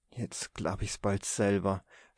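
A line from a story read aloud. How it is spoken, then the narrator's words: Woman sighing. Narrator (German): seufzte die brave Frau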